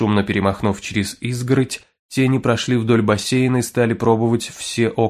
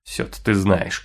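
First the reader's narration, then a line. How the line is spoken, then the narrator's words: Man grumbling. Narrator (Russian): проворчал мужчина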